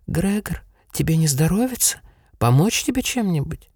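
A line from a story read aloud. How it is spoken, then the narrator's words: Quiet, pitying sister. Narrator (Russian): за другой, боковой дверью, тихо и жалостно говорила сестра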